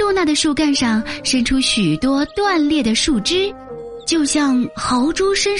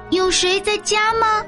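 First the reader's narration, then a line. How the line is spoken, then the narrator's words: Curious calling out. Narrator (Chinese): 好奇的蝴蝶 向露娜喊道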